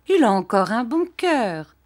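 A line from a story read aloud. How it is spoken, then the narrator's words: Cheerful. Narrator (French): dit gaiement ma tante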